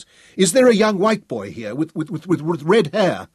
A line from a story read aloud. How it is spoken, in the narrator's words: shouted at him